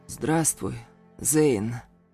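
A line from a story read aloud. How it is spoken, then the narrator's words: Wheezing. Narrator (Russian): прохрипел Тахир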